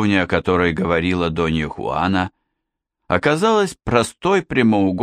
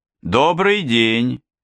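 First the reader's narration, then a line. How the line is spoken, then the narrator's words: Shouted. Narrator (Russian): крикнул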